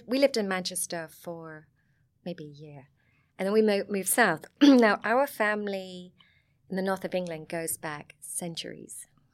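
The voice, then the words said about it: Southern English Sussex accent. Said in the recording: “I have a Sussex accent”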